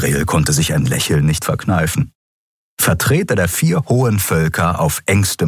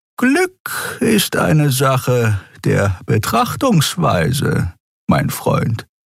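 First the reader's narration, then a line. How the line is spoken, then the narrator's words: Sluggish seer's voice. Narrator (German): sagte der nebenberufliche Seher mit träger Stimme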